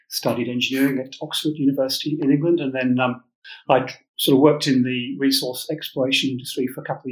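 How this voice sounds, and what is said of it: English accent. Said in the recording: “as you can probably tell from my accent, English”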